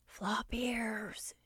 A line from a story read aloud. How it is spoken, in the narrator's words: whispered, not daring to be too loud